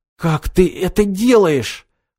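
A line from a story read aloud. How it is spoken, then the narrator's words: Hoarse questioning. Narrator (Russian): хрипло поинтересовался Роберто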